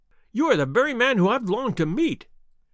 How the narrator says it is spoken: cried the little fellow

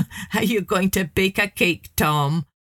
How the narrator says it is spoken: one of them sneered

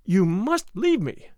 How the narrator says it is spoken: she said firmly

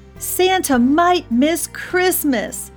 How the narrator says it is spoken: shouted the elves

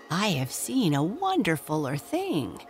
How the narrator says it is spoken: Nibs cried as they gathered round him eagerly

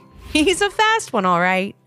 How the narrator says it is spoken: Mom laughed

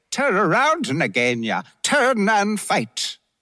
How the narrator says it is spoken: Rikki-Tikki cried

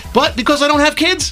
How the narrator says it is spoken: I laughed

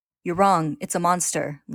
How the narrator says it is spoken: Ling says firmly

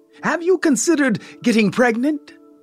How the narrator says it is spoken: her mother blurts out

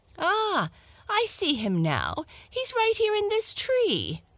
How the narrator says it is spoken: exclaimed the fat one

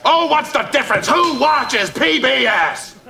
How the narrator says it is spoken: Frasier shouts

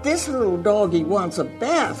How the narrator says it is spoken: cried the little girl

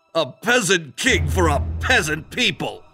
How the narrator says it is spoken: he scoffed

